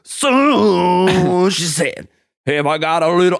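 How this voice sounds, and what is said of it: Imitates another person's singing voice. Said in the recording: “You nailed that Eddie Vedder impersonation”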